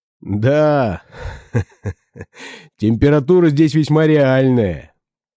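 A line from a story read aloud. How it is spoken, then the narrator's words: Laughing. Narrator (Russian): засмеялся Месснер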